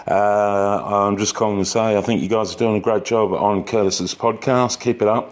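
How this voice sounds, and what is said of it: Australian accent. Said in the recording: “My accent is Australian.”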